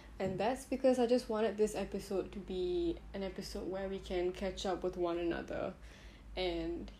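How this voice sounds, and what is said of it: Mellow, subdued, chill voice. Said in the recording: “as you can hear it in my voice. I'm a little more mellow than usual.”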